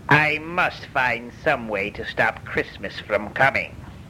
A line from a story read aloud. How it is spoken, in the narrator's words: he growled